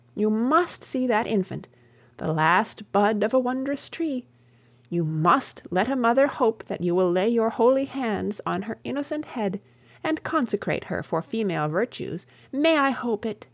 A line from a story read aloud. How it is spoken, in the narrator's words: she exclaimed